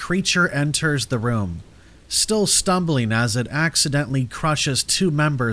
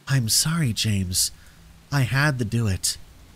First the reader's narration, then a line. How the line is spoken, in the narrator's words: leans close, her breath hot on my face as she whispers